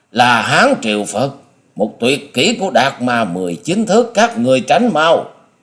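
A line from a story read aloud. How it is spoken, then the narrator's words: Panicked shriek. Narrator (Vietnamese): điểu thần ma hốt hoảng rú lên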